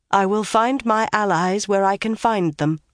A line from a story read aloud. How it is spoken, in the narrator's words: Morgay's told her stiffly